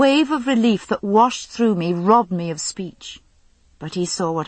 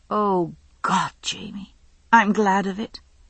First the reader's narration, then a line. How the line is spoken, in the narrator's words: I whispered